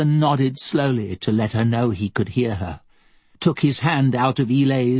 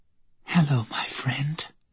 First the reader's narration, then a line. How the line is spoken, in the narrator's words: whispered